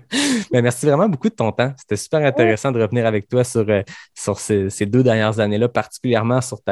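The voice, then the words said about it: Québécois French accent. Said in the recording (French): “ça fait plaisir d'entendre ce, accent ... l'accent québécois”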